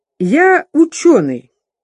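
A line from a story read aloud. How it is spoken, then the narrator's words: Stern, lecturing, slurred speech. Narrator (Russian): строго и назидательно выговорил мсье Пипин заплетающимся языком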